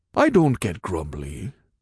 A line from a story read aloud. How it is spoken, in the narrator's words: he grumbled